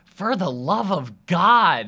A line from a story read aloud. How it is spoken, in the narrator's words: shouts